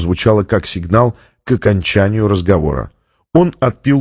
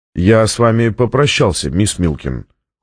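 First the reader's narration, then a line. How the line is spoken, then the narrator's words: Cold. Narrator (Russian): холодно сказал Фонтейн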